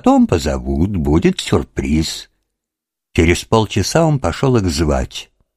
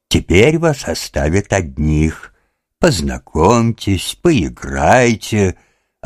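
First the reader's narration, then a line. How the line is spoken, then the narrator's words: Joyful, father. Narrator (Russian): радостно сказал Лужин-старший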